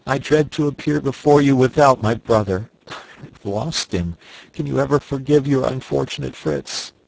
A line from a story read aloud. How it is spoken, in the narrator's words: said he, sobbing